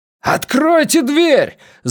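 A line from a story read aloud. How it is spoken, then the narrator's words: Yell. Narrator (Russian): завопил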